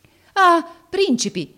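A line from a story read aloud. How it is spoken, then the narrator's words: Exclaiming. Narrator (Italian): esclamò egli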